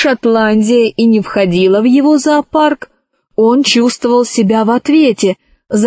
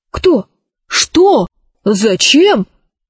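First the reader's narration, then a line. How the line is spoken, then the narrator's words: Startled exclamation. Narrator (Russian): воскликнул директор палеозо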